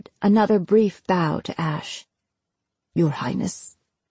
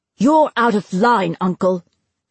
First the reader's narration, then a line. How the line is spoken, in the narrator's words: Finn snapped